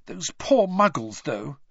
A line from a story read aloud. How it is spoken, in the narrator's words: said Hermione, nervously